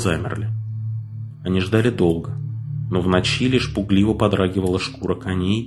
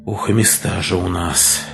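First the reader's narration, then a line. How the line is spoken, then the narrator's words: Sighing. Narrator (Russian): вздохнул второй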